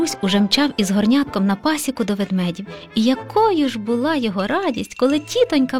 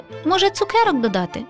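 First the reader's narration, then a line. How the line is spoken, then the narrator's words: Laughing. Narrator (Ukrainian): засміялася Шумка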